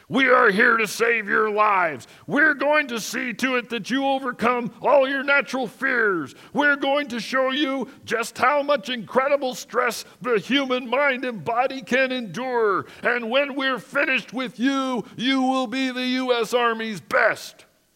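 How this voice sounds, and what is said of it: Raspy drill sergeant voice. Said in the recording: “I can still hear the raspy voice of the sergeant ... That's my best impersonation of a sergeant”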